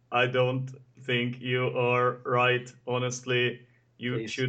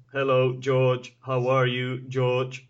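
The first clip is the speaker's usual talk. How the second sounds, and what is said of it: Bad robot voice. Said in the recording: “that was the worst robot impression ever”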